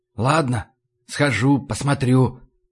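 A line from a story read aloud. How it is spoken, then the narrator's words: Whispered. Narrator (Russian): прошептал я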